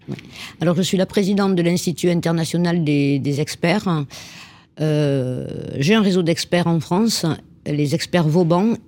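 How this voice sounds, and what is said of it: Southern French Toulouse accent. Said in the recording (French): “Avec l'accent, ça va bien? ... Avec l'accent chocolatine, oui. ... Parce que c'est Toulouse, les amis. ... la région de Toulouse.”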